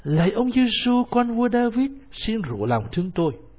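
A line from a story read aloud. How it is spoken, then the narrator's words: Crying out. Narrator (Vietnamese): anh ta bắt đầu kêu lên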